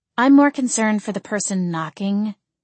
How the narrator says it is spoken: Ophelia said, her tone dry

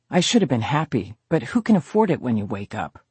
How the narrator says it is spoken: Liza Boston muttered

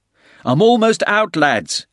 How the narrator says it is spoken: Tully called out from the northern wall

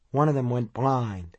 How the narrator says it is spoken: He paused again, then added in a queer, flat tone

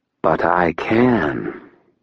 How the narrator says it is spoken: Lashiel said quietly

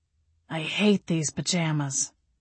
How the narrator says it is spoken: he muttered

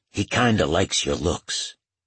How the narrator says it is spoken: to Ray quietly

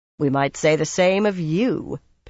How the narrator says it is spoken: Pivara replied dryly

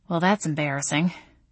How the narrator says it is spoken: I muttered

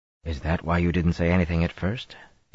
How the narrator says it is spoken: he asked softly

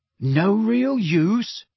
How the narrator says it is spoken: said Ron in a strained voice

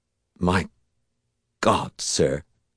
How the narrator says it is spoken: Cal said faintly

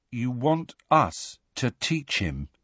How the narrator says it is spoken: Harry said in a hollow voice

